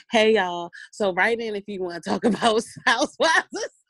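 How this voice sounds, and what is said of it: Sexy, seductive voice. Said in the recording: “my sexy voice”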